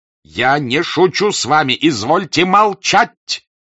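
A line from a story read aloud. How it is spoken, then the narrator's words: Shout. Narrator (Russian): крикнул Болконский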